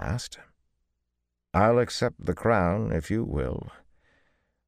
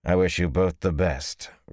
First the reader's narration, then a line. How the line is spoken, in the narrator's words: Rand said curtly